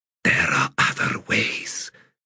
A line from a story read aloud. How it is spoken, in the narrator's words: she whispered